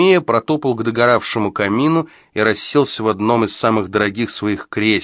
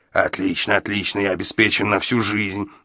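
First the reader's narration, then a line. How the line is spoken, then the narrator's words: Muttering to himself. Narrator (Russian): бормотал себе под нос Гадсон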